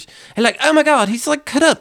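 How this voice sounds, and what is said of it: Terrible imitation British accent. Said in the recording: “This is a terrible British accent.”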